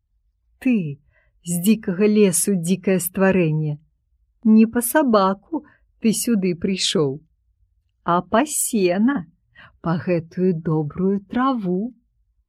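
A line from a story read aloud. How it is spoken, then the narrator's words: Laughing woman speaking. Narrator (Belarusian): Жанчына засмеялась, сказала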